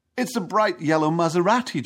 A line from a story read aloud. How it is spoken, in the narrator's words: John exclaims